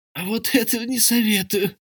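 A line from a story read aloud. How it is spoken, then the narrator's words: Wheezing hiss. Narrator (Russian): просипел хитроглазый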